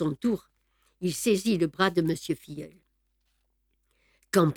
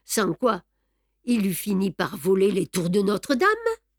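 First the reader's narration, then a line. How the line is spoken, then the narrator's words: Sneering laugh. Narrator (French): ricana monsieur Filleul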